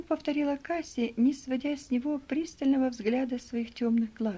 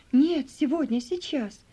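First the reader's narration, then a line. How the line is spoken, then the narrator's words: Forceful exclamation. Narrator (Russian): с силой воскликнула она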